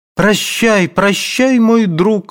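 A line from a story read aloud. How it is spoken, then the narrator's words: Heard amid sobbing. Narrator (Russian): слышалось среди рыданий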